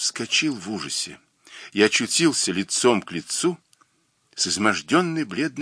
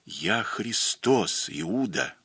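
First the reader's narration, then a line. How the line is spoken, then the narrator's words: Whisper. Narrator (Russian): этого шепота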